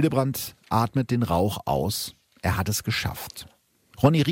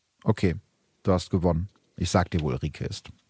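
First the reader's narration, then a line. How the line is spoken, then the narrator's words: Very calm. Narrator (German): Der sagt ganz ruhig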